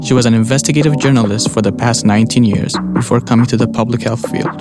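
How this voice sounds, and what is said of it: Ethiopian accent. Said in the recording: “you may have noticed his accent. He's from Ethiopia.”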